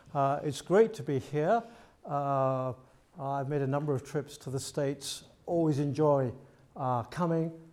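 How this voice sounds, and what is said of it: British accent. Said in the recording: “I'm from the UK, as you can tell by my accent straight away.”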